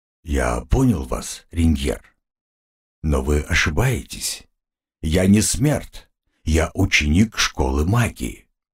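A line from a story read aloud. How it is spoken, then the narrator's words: Muffled, hollow. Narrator (Russian): глухо сказал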